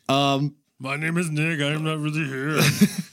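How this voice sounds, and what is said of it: Imitates another person's voice. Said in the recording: “That was Schwarzenegger.”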